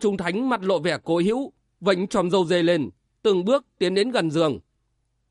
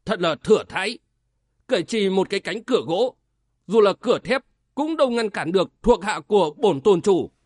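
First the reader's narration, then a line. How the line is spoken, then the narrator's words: Laughing, then icy sharp. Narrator (Vietnamese): Quân Trung Thánh bật cười ha ha, nói với giọng sắc lạnh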